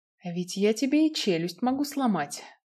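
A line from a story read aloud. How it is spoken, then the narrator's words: Quiet, menacing. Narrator (Russian): тихо сказал Киган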